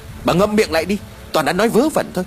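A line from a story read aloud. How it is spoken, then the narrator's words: Sharp scolding shout. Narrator (Vietnamese): Ông Mai liền quát vợ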